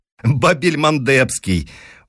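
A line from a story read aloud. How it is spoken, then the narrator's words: Loud laughter. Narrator (Russian): Он опять расхохотался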